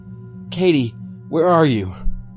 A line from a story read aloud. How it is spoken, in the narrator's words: I said desperately into the phone